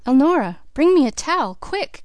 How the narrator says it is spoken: cried Mrs

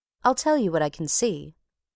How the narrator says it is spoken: answered Jettison

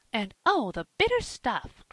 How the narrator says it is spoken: cried Polly, with a wry face

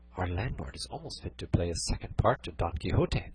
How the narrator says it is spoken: Dorothea said in a whisper to Cardenio

